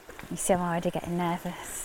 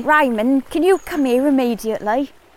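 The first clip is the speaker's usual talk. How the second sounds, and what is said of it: Attempted generic London accent. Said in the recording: “generic sort of London accent? And I tried, and I sounded like Mary Poppins ... Go on, I want to hear your London accent.”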